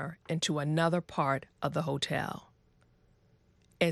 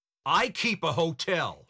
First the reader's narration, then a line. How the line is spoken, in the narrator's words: he shouted